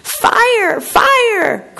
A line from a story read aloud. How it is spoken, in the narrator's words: cried the little parrot